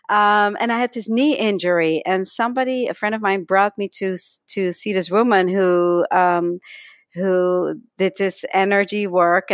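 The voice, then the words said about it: Slight Dutch accent. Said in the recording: “from Holland, hence my slight accent, even though I've been here so long”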